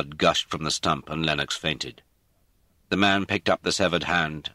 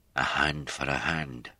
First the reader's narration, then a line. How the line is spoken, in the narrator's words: Mac said quietly